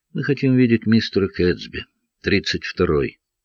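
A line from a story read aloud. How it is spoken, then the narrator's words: Calm, slightly sluggish. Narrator (Russian): тот сказал спокойно, даже чуточку вяло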